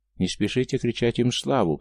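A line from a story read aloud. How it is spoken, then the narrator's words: Calm reply. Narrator (Russian): по-прежнему спокойно отозвался голос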